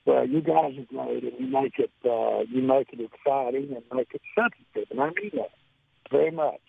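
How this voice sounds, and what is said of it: Hoarse, strained voice. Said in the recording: “I'm sorry I can't talk. I lost my voice out here ... I lost my voice after about an hour.”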